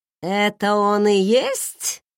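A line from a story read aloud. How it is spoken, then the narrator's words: Menacing, weighty. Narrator (Russian): грозно и веско уточнил он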